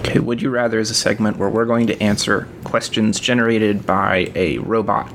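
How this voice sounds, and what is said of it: Robotic voice impression. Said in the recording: “That was my robot impression.”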